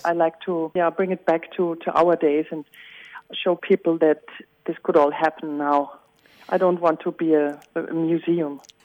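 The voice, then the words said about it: Viennese Austrian German accent. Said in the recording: “As you can hear by my accent, I am a Viennese woman”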